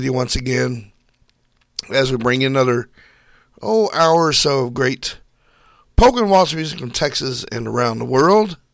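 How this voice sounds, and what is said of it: Voice strained from a cold. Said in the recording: “I've been battling a cold for like 3 weeks ... I'm going to try to make it through this show without losing my voice.”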